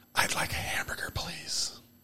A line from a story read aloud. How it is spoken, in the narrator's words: The man apologizes and whispers